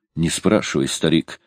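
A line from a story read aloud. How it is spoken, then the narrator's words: Sigh. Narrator (Russian): вздохнул Куч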